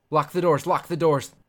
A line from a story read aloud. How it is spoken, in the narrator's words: he shouts to Catherine